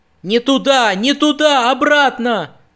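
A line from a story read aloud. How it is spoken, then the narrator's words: Frightened shout. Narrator (Russian): закричал испуганно Нат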